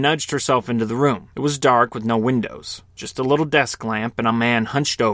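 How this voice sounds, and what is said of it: Usual voice. Nothing is said of it.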